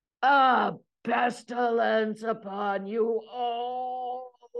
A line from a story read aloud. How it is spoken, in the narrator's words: he was screaming